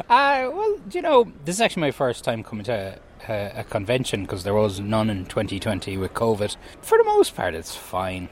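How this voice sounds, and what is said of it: Irish Kerry accent. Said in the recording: “Two Kerrymen here ... The Irish accent goes a very long way here.”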